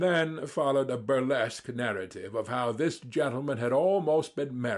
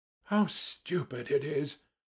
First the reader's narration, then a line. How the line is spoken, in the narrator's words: muttered Simonov